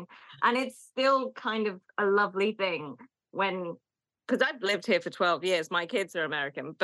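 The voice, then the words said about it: British accent. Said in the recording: “lovely to be a Brit in America because Americans are just so lovely about British accents ... comment on my accent and say they like it”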